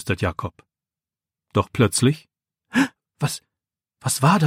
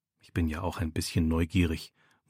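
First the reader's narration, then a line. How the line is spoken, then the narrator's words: Murmured. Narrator (German): murmelt er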